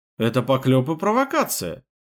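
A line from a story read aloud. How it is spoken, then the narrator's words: Fake, theatrically offended exclamation. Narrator (Russian): театрально оскорбленным голосом воскликнул я, чтобы даже кретин догадался, что я фальшивлю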